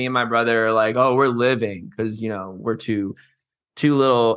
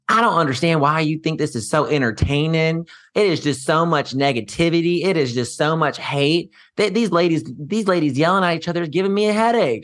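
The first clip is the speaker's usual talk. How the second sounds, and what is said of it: Put-on thick southern accent. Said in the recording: “got this thick southern accent”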